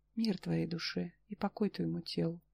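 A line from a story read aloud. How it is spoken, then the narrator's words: Involuntary whisper, cracked lips. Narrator (Russian): сами собой прошептали потрескавшиеся губы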